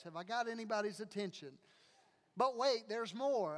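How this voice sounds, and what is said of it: Infomercial salesman pitch voice. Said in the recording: “I sound exactly like an infomercial.”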